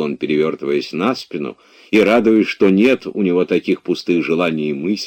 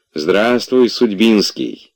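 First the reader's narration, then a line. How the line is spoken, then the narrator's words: Cheerful greeting. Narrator (Russian): весело поздоровался Обломов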